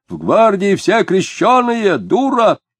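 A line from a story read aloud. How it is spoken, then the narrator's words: Man shouting after someone. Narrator (Russian): коротконогий человек в белом переднике, в соломенной шляпе, закричал вслед женщине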